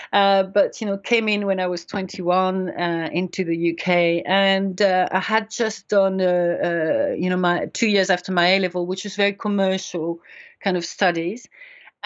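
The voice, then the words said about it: French accent in English. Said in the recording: “where is this accent from. So I am French, but I have been in the UK for 30 years”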